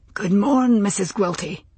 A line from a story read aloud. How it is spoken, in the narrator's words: Roger said, in his soft, hoarse voice